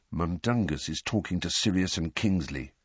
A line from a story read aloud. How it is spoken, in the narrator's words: muttered, frowning with concentration